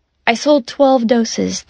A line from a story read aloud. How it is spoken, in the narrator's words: the teenager replied